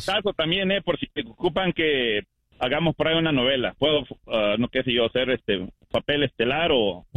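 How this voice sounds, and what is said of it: Rich radio announcer voice. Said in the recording (Spanish): “El tío tiene tremenda voz de locutor, ¿eh? ... Sí, tiene voz de locutor ... No, tremenda voz tiene el tío.”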